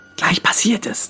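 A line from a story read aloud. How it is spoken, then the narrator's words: Hissing. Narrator (German): zischte Marcel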